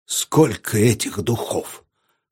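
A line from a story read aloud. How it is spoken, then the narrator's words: Hoarse reply. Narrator (Russian): хрипло ответил Гриной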